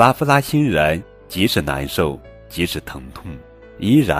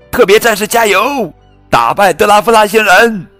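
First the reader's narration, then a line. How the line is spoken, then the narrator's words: Group shouting. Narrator (Chinese): 大家还是喊着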